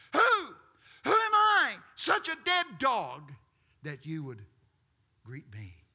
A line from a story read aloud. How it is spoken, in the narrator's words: Mephibosheth screams